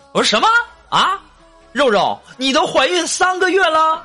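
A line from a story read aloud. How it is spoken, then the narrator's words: Loud shout. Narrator (Chinese): 我立刻大声喊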